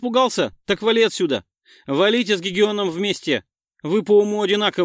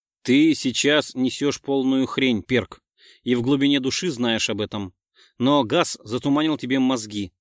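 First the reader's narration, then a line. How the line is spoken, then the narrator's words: Calm. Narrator (Russian): спокойно сказал я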